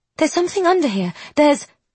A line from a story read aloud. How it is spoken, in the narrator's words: she gasps